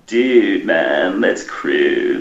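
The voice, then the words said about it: Surfer-dude accent. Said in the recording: “Hear a New Zealander do a surfing accent.”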